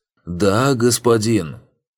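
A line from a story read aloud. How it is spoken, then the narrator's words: Loud and clear. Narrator (Russian): Холгер, как и все слуги, говорил с ним громко, стараясь, чтобы его было хорошо слышно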